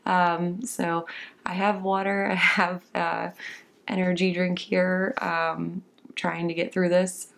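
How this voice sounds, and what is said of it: Raspy voice with heavy vocal fry. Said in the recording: “what is wrong with ... voice today, I'm coming off of a little bit of a bronchitis episode ... my voice has a little bit more of a fry to it than normal ... a little bit more of a heavier vocal fry than normal”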